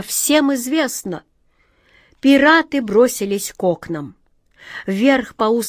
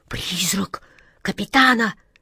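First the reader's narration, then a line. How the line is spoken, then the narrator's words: Terrified moaning woman. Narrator (Russian): в ужасе простонала атаман Джина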